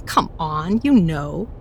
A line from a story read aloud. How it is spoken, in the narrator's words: surprised, so I snort